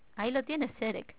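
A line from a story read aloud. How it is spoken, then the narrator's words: Plain. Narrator (Spanish): dijo entonces Belgarath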